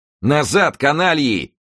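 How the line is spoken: Shouting. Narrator (Russian): крикнул Д'Артаньян

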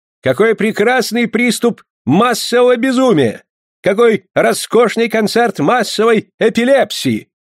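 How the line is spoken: Ecstatic shouting. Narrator (Russian): восторженно кричал Бах

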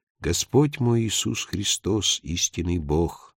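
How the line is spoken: Quiet recitation, two voices. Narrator (Russian): падре вместе с ней стал тихо читать

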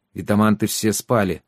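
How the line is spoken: Gloomy. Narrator (Russian): мрачно сказал Трикс

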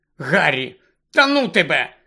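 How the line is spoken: Angry. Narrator (Ukrainian): сердито зупинилася Герміона

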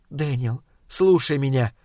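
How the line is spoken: Whisper to herself. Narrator (Russian): прошептала она про себя

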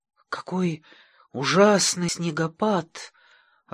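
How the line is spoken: Timid. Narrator (Russian): робко молвил один из них

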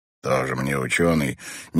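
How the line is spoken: Displeased grumble. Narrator (Russian): недовольно пробурчал Мэтт

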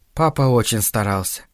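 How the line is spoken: Soft. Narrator (Russian): мягко сказала она

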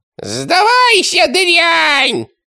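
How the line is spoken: High squeaky voice. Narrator (Russian): пропищало оно

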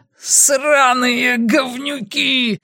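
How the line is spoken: Yelling. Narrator (Russian): орал Арни

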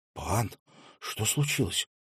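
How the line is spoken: Whisper. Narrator (Russian): прошептала она

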